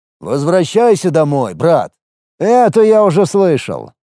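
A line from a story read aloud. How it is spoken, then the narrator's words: Rudely interrupting. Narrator (Russian): Довольно грубо перебил я его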